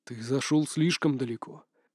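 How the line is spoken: Muttered. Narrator (Russian): пробормотал Мамин Хуа

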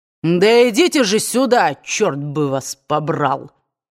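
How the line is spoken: Rough bark. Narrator (Russian): грубо рявкнул он

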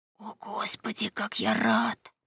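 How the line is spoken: Whisper. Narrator (Russian): прошептал Том

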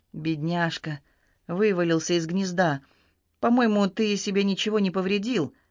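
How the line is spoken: Gentle, tender. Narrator (Russian): Судья Ди ласково произнес

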